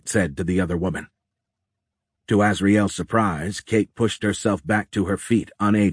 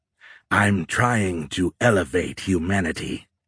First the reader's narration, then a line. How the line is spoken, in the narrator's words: Azrael growled